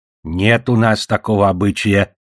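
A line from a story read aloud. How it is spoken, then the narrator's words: Stern old woman. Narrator (Russian): строго отвечала бабка Дарья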